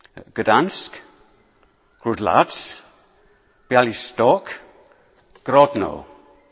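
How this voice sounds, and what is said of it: Fake Polish accent. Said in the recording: “forgive my cod Polish accent”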